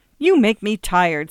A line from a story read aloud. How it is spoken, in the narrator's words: snapped Eva impatiently